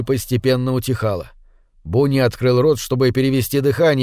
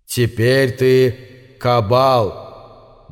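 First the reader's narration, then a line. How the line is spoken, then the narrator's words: Solemn. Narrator (Russian): Бефоумет торжественно произнес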